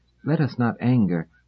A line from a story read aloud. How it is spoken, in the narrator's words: said Tesalver soothingly